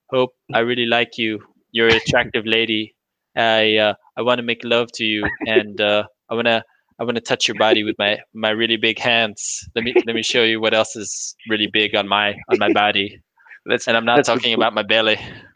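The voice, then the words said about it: Imitates another person's voice. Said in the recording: “good Trump impersonation”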